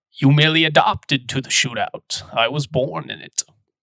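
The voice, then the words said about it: Terrible Bane impression. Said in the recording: “That was an absolutely terrible Bane impersonation.”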